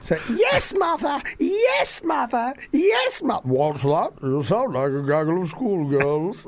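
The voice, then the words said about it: Imitates another person's voice. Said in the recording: “your vicious impression”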